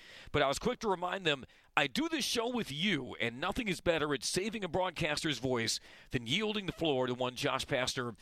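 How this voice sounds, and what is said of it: Hoarse, raspy voice. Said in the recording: “been fighting some laryngitis, and some people, coach, were worried about how my voice would hold up”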